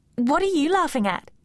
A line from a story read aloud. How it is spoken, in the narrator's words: she snapped